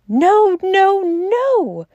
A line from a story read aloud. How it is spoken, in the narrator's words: cried Syme in a kind of frenzy